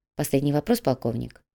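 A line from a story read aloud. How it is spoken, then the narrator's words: Quiet. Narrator (Russian): негромко произнес господин Пу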